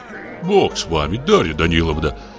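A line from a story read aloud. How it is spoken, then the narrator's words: Soft comforting undertone. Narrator (Russian): Кто-то в полголоса утешает старуху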